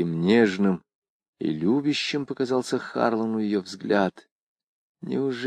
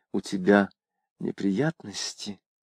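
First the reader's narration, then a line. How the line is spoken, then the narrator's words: Quiet question. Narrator (Russian): тихо спросила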